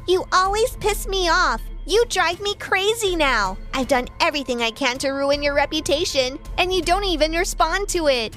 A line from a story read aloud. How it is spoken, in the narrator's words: she yelled